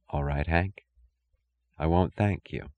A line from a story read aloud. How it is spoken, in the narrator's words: She whispered